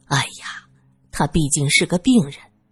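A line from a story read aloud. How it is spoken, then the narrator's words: Low sighing voice. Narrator (Chinese): 林小姐叹气，低声说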